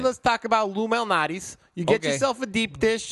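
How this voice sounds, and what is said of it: Put-on Chicago accent. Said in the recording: “I'm going to do a Chicago accent”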